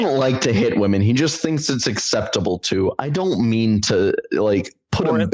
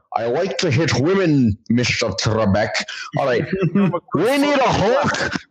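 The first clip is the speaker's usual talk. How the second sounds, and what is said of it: Put-on Scottish accent impression. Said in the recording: “So that's my Scottish accent.”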